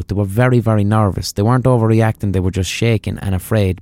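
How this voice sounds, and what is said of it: Irish accent. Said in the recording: “my filthy, dirty Paddy accent ... my Irish accent”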